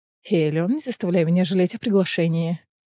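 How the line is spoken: Sigh. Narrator (Russian): Вздохнул Риз

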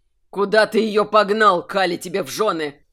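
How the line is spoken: Through gritted teeth. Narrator (Russian): процедил демонолог

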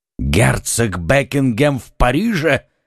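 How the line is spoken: Exclaimed. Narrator (Russian): воскликнул король

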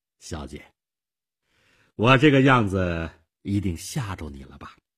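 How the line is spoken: Forced smile. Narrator (Chinese): 勉强地笑笑

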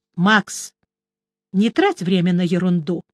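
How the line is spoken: Soft request. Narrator (Russian): мягко попросил Шурф

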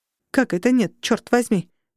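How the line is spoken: Annoyed bark. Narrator (Russian): рявкнул я от досады

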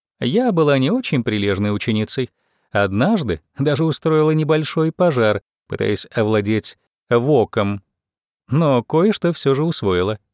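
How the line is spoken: Laughing remark. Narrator (Russian): заметила она, смеясь

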